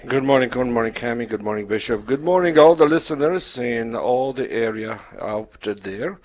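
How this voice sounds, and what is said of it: Polish accent. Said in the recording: “My background is Polish, so that's the accent.”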